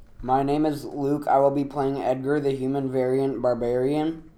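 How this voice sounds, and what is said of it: Flat monotone delivery. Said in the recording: “He is Monotone McMonotone Man.”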